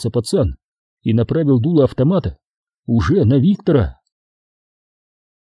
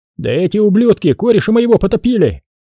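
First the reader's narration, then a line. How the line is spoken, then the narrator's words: Soldier shouting. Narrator (Russian): крикнул один из бойцов в черной форме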